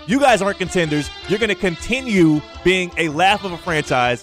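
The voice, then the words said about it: Yelling. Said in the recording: “I'm yelling”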